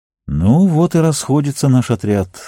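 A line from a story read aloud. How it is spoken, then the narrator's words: Sighing. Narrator (Russian): вздохнул Арагорн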